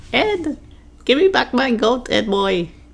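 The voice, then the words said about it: Weird cartoon character voice. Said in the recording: “That little weird voice”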